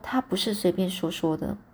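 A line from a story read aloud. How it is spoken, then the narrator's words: Soft, old man. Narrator (Chinese): 这刘伯伯的声音很轻哦，就说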